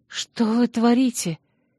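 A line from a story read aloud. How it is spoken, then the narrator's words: Frightened speech. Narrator (Russian): испуганно проговорила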